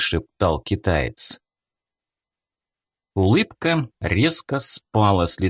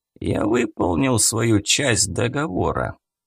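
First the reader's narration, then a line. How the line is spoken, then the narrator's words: Hoarse. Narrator (Russian): хрипло сказал он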